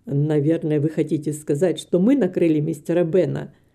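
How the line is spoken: Laughing. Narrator (Russian): засмеялся доктор

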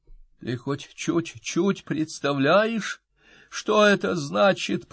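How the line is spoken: Hoarse rasp. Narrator (Russian): прохрипел он

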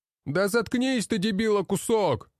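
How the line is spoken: Shouted from afar. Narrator (Russian): Выкрикнули с другой части казармы

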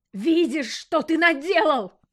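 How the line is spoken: Yelled. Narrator (Russian): заорала Машка

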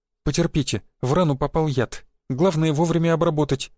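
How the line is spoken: Babbling. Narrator (Russian): залепетала она

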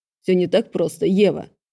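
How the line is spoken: Growled. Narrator (Russian): рыкнул

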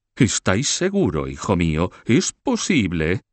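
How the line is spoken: Exclaimed. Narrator (Spanish): exclamó

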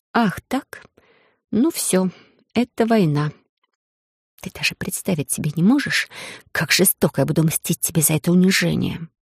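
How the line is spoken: Hissed under breath. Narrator (Russian): Прошипела я себе под нос, но так, чтобы Эдриш это услышал

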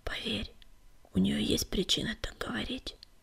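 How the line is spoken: Whisper. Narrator (Russian): шепнул он

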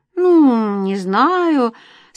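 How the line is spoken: Doubtful drawl. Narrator (Russian): с сомнением протянула Лариса

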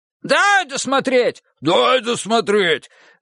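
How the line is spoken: Excited shouting crowd. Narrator (Russian): Закричали, заражаясь нервическим задором от Коли, сразу несколько пациентов

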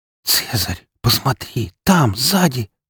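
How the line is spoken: Whispered. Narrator (Russian): прошептала Фокси

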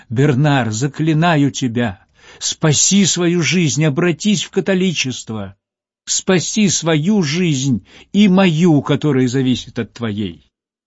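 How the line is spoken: Pleading cry. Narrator (Russian): она вскричала умоляющим голосом

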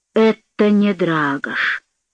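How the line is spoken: Muttering. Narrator (Russian): пробормотал Стрига

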